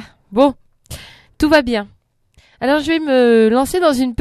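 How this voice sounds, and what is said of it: Usual voice. Nothing is said of it.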